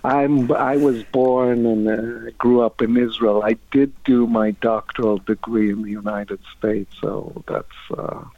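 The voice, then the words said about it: Middle Eastern accent. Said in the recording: “your accent is, it sounds like half American, half Italian, half English ... It's a Middle Eastern accent.”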